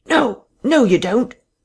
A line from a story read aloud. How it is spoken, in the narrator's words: a sharp cry of